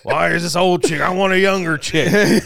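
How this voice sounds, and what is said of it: Mocking redneck-style voice. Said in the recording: “you do an insulting voice, it's always like a redneck”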